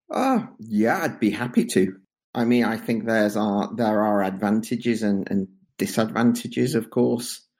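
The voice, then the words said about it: Non-Flemish foreign accent. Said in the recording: “as our listeners can probably infer from your accent, you're not Flemish”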